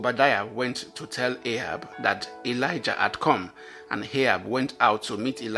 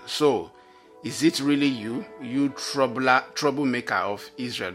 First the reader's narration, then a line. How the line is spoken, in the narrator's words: he exclaimed